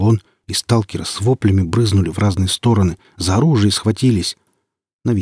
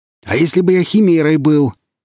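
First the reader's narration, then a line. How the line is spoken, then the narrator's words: Distant shout from darkness. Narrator (Russian): крикнул он им из темноты, отбежав на приличное расстояние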